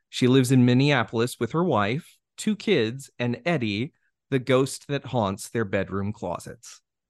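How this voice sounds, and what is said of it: Polished radio announcer voice. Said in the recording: “You have a terrific radio voice.”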